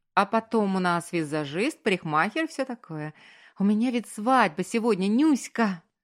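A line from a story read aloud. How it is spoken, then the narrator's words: Cheerful exclamation. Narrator (Russian): весело вскричала она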